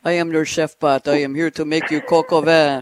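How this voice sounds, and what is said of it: Put-on French accent. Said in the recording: “Will they have a French accent? Great. Will they have a French accent?”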